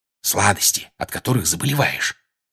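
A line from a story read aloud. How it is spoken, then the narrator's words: Whisper. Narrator (Russian): прошептал Джордж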